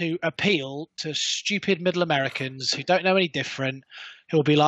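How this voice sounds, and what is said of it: Usual voice. Nothing is said of it.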